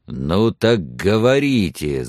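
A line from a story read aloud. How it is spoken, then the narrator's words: Growling. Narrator (Russian): зарычал Лонг на Сексон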